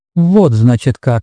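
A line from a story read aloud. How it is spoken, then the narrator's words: Muttering. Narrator (Russian): наконец пробормотал он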